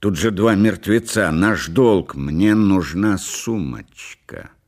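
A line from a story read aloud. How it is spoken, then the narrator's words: Stubborn and angry. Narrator (Russian): сказала Делла упрямо и зло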